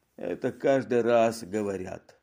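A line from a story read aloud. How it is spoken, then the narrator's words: Grumbling. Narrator (Russian): проворчал полицейский комиссар Фекана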